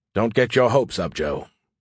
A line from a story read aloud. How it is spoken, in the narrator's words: he said in an unhappy tone